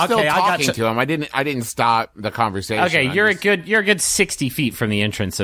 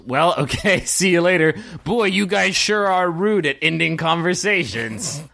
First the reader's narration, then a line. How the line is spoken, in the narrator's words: Captain Bane yells